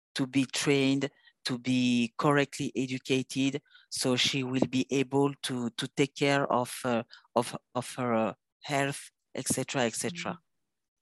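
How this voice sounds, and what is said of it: Heavy non-native accent in English. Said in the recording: “Sorry for my accent. No, I have a very, very bad accent.”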